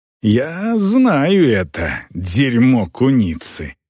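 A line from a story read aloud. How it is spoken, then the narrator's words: Hissing. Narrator (Russian): прошипела орка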